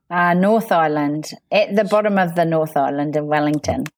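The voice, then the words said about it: New Zealand accent. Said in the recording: “you've probably heard by the accent already that ... is based in New Zealand”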